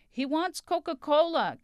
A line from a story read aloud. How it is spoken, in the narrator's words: Cataneo shouted to the waiter